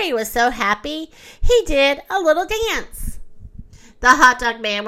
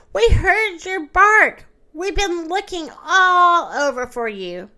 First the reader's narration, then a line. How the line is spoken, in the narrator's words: they cried